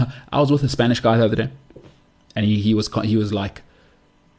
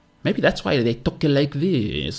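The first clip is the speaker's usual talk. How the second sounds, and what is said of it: Mock French accent. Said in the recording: “I don't know if that was a French accent, but you know the accent they've got.”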